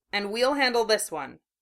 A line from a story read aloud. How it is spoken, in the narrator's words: Chiyo said grimly